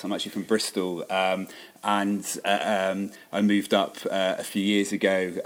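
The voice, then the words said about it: Bristol English accent. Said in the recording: “you could probably tell from my accent I'm not actually from these parts”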